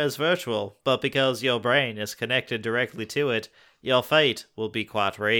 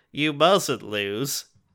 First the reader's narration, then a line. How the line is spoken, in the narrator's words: the vegan cries